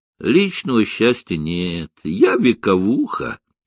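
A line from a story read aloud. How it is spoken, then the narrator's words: Laughing. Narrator (Russian): рассмеялась Круглова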